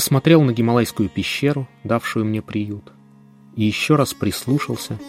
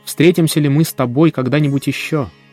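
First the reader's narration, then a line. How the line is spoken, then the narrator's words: Shouted. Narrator (Russian): он выкрикнул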